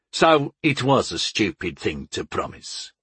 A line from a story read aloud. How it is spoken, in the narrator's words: grunted Master Guri